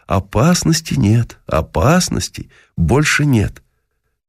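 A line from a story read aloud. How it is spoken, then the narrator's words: Reassuring. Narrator (Russian): мы стали уверять ее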